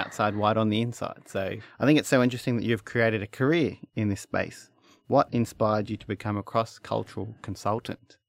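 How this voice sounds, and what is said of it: Broad Australian accent. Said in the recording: “as you can hear, I have a very broad Australian accent”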